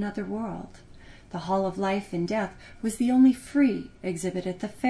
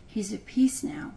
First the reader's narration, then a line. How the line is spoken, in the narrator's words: Millicent whispered